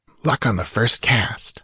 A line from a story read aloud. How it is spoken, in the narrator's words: murmured Taurus